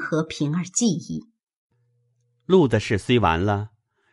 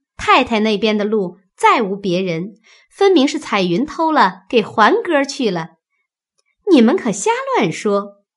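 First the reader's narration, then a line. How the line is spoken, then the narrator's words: Laughing. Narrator (Chinese): 晴雯笑道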